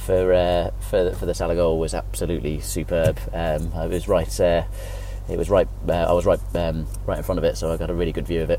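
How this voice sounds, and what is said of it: Hoarse voice. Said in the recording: “that's why my voice sounds so hoarse.”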